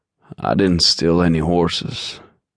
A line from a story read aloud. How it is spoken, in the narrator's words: Gabe retorted dryly